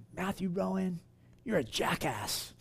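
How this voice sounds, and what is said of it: Imitated English accent. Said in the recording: “she had an English accent.”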